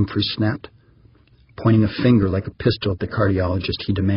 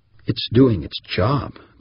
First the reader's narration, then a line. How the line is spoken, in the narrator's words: the cardiologist said firmly